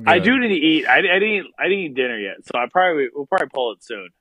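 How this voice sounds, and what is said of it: Slurred speech. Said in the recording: “I'm slurring my words a little bit because that's how fucking inebriated.”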